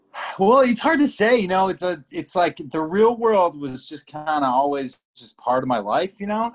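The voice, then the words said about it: American Chicago accent. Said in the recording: “It's good to have an American voice ... I hope my Chicago accent isn't too thick”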